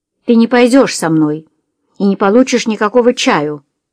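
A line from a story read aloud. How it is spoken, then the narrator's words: Barking angrily. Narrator (Russian): рявкнула Джулия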